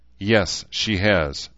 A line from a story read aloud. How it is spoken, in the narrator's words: Shida replied evenly